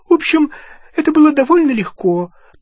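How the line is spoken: Thin high voice. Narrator (Russian): тонким голосом сообщила Гермиона

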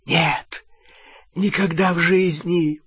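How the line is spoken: Whispered. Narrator (Russian): прошептал Малфой

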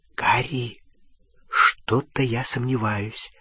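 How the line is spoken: Whisper. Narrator (Russian): зашептала Гермиона

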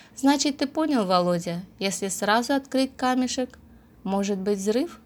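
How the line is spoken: Calm. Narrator (Russian): Она встала, как-то вяло потянулась и спокойно сказала

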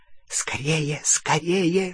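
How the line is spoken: Hissing in ear. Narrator (Russian): шипел ему в ухо крюкохват

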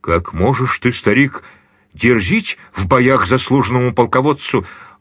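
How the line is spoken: Exclaimed. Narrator (Russian): воскликнул ординарец римский

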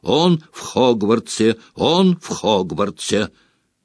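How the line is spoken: Repeated sleep mutter. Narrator (Russian): Блэк постоянно бормотал во сне

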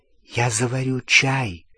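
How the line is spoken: Whisper. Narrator (Russian): шепотом сказала Гермиона

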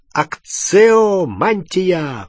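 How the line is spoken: Roar. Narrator (Russian): проревел пожиратель

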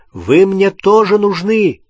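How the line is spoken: Shouting. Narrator (Russian): крикнул он Рону и Гермионе

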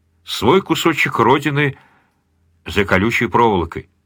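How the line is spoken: Very quiet, to himself. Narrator (Russian): добавил совсем тихо, словно про себя

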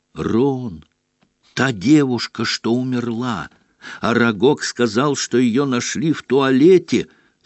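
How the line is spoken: Whisper over loud snoring. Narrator (Russian): зашептал Гарри, стараясь перекрыть громкий храп Невилла

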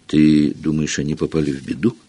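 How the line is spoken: Whispering. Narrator (Russian): прошептала Гермиона

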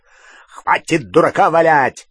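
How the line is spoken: Barking. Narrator (Russian): рявкнул Грюм

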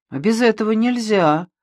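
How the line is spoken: Sigh. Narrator (Russian): вздохнул Мазукта

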